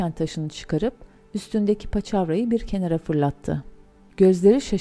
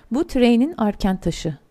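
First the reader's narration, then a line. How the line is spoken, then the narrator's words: Plain. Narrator (Turkish): dedi Bilbo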